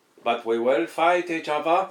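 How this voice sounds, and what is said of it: Put-on Indian accent. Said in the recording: “That's worse than my Newcastle accent earlier ... That was Indian as well ... That's more offensive than my Newcastle accent”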